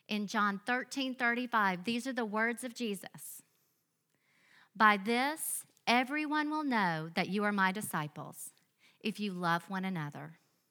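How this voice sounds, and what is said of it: Southern US accent. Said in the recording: “Because of my accent, some of you may be wondering where I'm from ... I grew up in a small, sweet church in Biloxi, Mississippi”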